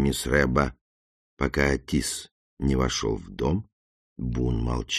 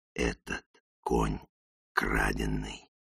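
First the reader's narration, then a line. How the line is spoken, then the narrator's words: Hiss. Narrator (Russian): прошипел Бун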